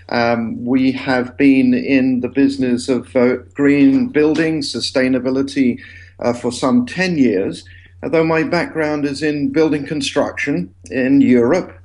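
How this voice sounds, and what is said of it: English accent. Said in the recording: “I have an English accent,”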